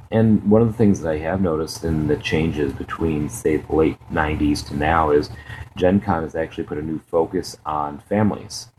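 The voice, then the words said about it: Deeper, tired-sounding voice. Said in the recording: “you probably hear it in my voice. I'm a little bit more bassy than usual today ... just worn out, just exhausted”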